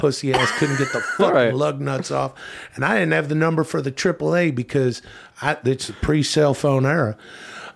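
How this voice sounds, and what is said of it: Imitates another person's voice. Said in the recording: “a pretty close impersonation to my dad”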